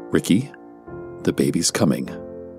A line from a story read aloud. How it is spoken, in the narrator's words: calmly stated